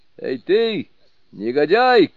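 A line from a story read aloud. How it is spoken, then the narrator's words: Shouted. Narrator (Russian): крикнул Суню-Кун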